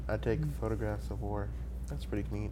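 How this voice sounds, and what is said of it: Flat deadpan delivery. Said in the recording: “deadpan. Like, this is the most deadpan”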